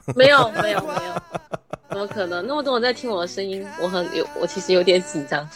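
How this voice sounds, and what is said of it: Southern Chinese accented Mandarin. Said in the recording (Chinese): “听口音应该是南方那边的妹子”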